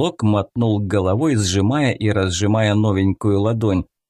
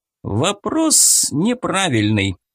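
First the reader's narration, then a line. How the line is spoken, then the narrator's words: Loud objection. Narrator (Russian): громко возразил Федя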